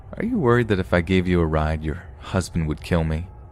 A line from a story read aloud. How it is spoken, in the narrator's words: He chuckled and asked